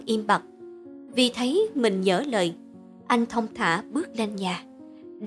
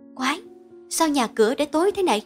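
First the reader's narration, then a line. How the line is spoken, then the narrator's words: Muttering. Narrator (Vietnamese): miệng lẩm bẩm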